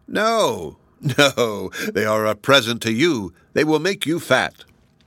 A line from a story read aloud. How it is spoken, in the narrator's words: laughed and said